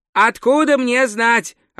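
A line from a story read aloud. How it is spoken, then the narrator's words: Snapped. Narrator (Russian): огрызнулся Два Цветок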